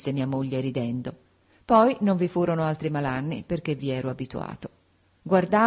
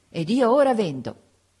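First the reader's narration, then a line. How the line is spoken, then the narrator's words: Triumphant exclamation. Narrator (Italian): esclamai trionfalmente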